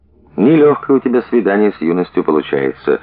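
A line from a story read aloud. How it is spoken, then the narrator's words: Sad, smiling. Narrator (Russian): грустно улыбнулась Маша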